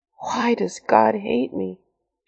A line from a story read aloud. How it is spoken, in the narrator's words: She groaned inwardly